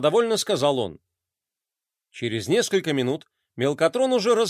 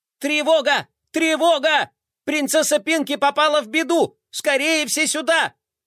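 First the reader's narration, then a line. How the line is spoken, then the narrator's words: Shouting through megaphone. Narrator (Russian): кричал он в мегафон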